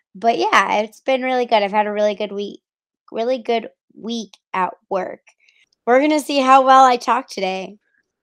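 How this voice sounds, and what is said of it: Hoarse, cracking voice. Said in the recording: “I'm losing my voice, so I'm probably going to be cracking like a 13-year-old boy going through puberty”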